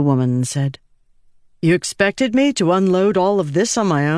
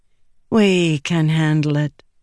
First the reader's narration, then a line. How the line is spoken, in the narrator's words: the woman said smoothly